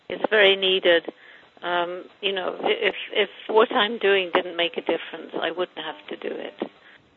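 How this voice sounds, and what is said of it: English accent. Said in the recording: “And you have an accent. ... England.”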